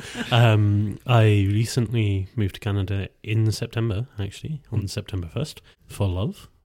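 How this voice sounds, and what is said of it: Scottish accent. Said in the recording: “I'm from Scotland, as you might be able to tell from the drastic change in accent.”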